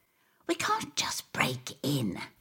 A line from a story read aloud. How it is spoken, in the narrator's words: gasp